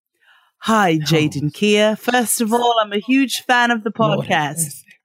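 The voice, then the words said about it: Put-on British accent. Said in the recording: “I feel like I should be reading this honesty box with a British accent.”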